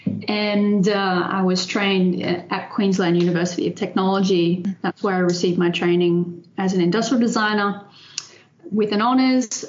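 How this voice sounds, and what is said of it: Australian accent. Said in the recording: “some of your audience will recognize my accent, perhaps. I'm Australian.”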